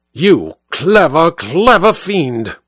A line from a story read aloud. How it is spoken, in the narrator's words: snarled